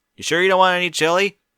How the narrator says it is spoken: Spike shouted after them

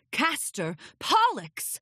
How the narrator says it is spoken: Luna called out across the room

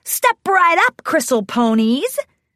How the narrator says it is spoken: Gilda shouted

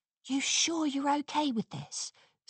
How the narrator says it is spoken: Scootaloo whispered to Sweetie Belle

